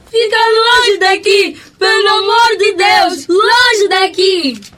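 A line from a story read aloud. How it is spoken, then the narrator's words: Shouting. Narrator (Portuguese): As outras duas gritaram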